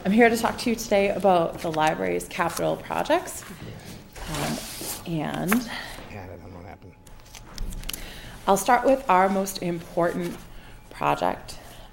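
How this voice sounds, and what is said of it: Slightly hoarse voice. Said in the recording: “I am getting over a cold, so apologies if I sound a little bit hoarse.”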